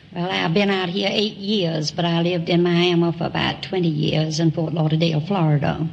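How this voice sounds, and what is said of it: Southern US accent. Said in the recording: “I suspected you were south of the Mason-Dixon line... People in Long Beach don't have that kind of an accent.”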